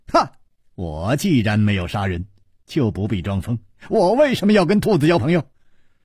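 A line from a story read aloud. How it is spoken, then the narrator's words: Laughing. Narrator (Chinese): 楚留香…笑着说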